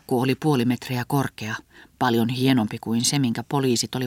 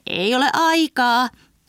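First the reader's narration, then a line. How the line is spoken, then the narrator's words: Shouting. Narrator (Finnish): huusi Heinähattu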